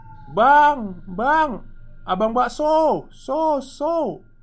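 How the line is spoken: Mischievous shout. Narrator (Indonesian): temanku berpikir usil, dia berteriak

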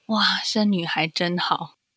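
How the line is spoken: Sudden wondering exclamation. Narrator (Chinese): 他就突然很感叹的说

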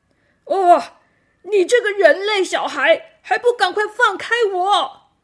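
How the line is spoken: Miserable scream. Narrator (Chinese): 那个声音惨叫了一声

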